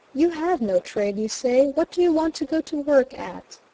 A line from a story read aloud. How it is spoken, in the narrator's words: Robinson, who kindly said